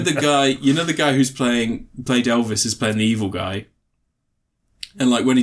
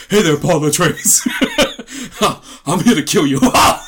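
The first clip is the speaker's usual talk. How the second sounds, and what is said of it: Imitates another person's voice. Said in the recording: “I couldn't stop doing the accent after I did Elvis because I practiced for so long”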